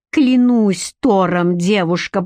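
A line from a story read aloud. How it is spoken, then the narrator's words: Growled. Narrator (Russian): прорычал он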